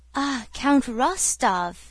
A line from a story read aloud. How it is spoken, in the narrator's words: exclaimed Pierre joyfully